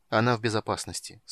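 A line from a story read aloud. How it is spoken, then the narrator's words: Calm. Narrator (Russian): спокойно сказал Танис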